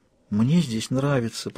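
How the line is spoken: Barely audible whisper. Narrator (Russian): прошептала она, едва слышно

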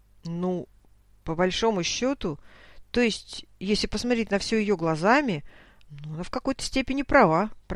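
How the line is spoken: Fearful mumbling. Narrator (Russian): промямлил Леха, боясь снова вызвать раздражение друга

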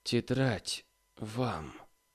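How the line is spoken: Hoarse, weak voice. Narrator (Russian): хрипло и еще слабее отозвался Поляков

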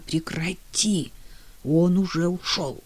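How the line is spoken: Quiet insistent demand. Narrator (Russian): Тихо, но настойчиво потребовала она

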